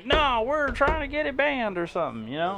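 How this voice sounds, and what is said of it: Put-on redneck accent. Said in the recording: “I did a redneck accent”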